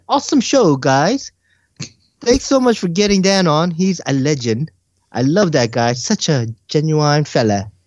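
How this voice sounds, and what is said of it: Deliberately bad English accent. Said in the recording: “that is the worst English accent I have ever heard ... It was purposely bad. I purposely wanted to make it bad”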